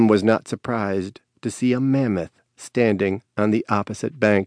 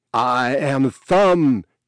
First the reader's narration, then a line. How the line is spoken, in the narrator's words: shouted across the river